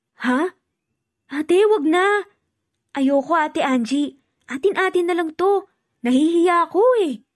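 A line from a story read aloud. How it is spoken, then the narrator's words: Hesitant. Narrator (Tagalog): nag-aalangan naman si Rosel, sabi na lang nito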